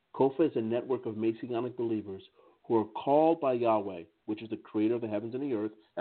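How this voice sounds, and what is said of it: American English accent. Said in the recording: “in my American English accent”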